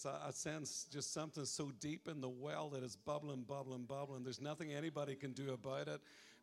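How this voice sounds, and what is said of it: Regional accent. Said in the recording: “you'll get used to my accent... It's an accent just north of Laconia”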